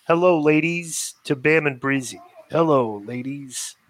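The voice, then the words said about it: Val Venis impression. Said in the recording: “say this in a Val Venus voice.”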